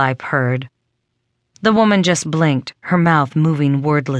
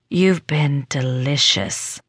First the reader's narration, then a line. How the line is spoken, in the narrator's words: Lorelai murmured